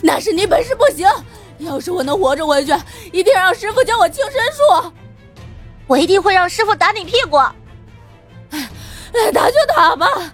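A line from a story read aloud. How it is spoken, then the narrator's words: Breathless shout while running. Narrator (Chinese): 陈世伯在前头狂奔，喘着大气喊道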